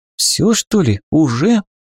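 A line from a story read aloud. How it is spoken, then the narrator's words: Exhaled. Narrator (Russian): Выдохнула Юнта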